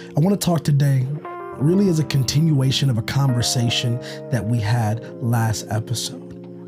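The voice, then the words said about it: Hoarse, strained voice. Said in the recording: “Allergies are kicking my butt, and so my voice is gone a little bit”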